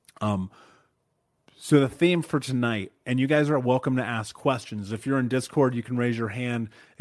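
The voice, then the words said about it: Slightly hoarse voice. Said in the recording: “my voice is a little hoarse. I spent the weekend being sick.”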